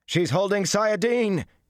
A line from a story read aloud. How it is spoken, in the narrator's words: he shouted